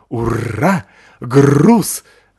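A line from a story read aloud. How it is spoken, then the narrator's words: Growling dog. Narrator (Russian): рычал пес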